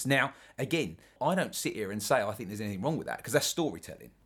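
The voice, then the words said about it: London English accent. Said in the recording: “London ... that's my accent”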